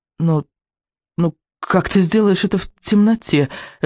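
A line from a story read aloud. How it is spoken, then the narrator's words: Stammering question. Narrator (Russian): заикаясь, спросил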